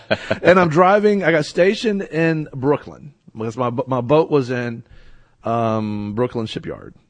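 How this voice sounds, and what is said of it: Rural country accent. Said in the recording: “I'm a country boy. You know, you probably can't tell by my accent.”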